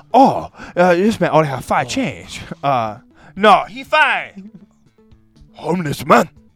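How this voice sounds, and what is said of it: Put-on Japanese accent. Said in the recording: “I do a Japanese accent?”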